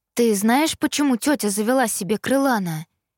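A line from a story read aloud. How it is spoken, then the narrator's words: Plain question. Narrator (Russian): спросила я Итана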